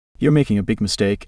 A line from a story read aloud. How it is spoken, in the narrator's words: said, her voice devoid of emotion